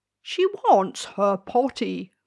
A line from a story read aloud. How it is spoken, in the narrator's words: cried the king